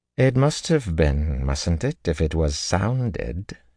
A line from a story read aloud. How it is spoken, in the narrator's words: she drawled dryly